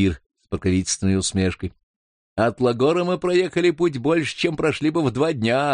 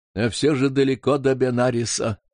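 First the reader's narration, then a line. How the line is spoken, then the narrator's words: Tired, mouth full. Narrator (Russian): устало проговорил лама, разжевывая пирожки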